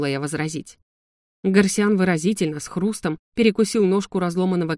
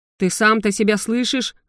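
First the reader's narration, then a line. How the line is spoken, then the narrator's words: Howling lizard. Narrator (Russian): взвыл ящер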